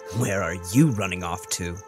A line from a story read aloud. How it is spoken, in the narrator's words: Judah scoffed